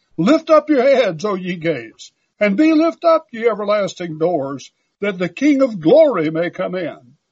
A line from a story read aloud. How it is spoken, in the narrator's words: His angel escorts cried